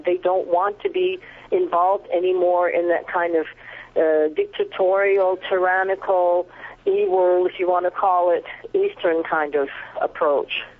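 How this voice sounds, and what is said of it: Canadian English accent. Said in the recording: “your accent gives you away as Canadian”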